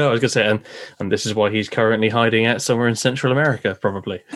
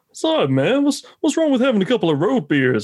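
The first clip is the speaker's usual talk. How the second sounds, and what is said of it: Imitated Florida accent. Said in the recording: “I'm going to do his voice. I do apologize to all people from Florida.”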